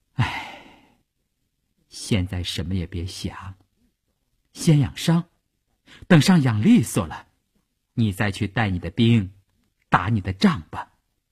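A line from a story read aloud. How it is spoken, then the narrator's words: Sighing, gentle. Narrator (Chinese): 他叹了一口气说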